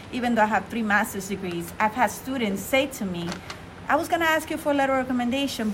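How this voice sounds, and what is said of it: Non-native English accent. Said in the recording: “When you learn language older, you're always going to have an accent ... I'm always going to have an accent”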